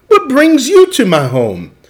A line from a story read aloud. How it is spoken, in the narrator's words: Amu exclaimed